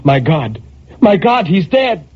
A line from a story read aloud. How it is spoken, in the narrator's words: Then a terror took hold of her and she cried